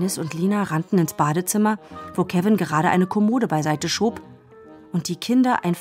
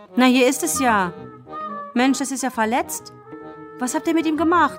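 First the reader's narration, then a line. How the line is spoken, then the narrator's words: Sudden call. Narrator (German): Kevin … rief plötzlich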